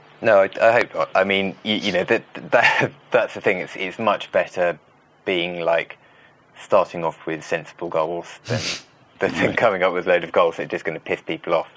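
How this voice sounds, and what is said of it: British accent. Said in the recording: “you can tell by your accent that you are British”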